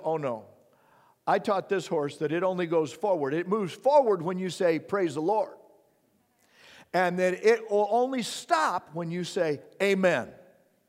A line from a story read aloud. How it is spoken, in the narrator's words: the city guy shouts